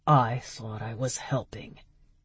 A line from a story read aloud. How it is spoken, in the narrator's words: Dag muttered